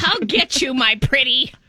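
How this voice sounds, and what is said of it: Imitates the witch's voice. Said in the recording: “my only impression ... oh, that's the witch.”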